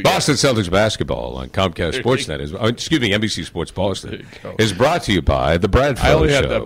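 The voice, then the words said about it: Sports announcer commercial voice. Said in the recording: “you put on your Celtics commercial voice ... My announcer voice? ... Celtics commercial voice”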